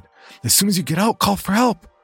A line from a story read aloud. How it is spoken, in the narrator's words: One of the women shouted